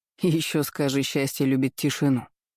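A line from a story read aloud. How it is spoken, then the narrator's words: Scoffing. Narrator (Russian): хмыкнул друг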